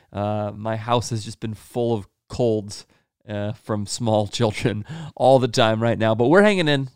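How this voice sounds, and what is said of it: Slightly sick-sounding voice. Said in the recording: “hear it in my voice, there's a little bit of sickness”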